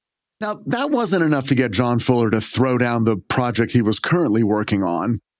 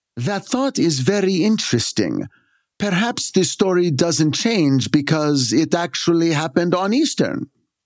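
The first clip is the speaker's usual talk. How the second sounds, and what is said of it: Put-on Scandinavian accent. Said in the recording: “That's my Scandinavian accent for some reason.”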